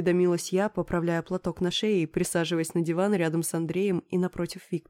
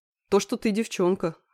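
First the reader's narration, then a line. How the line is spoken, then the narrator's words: Snorting smirk. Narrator (Russian): хмыкнул Андрей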